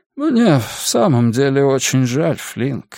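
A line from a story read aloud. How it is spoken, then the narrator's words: Sad sigh. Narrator (Russian): вздохнул Захарий, и на мгновение на его лице промелькнула грусть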